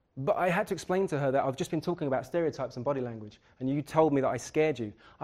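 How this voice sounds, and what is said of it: Harsh London accent. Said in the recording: “I'm from London, I've got quite a harsh accent.”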